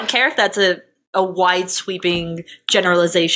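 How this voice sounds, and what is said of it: Usual voice. Nothing is said of it.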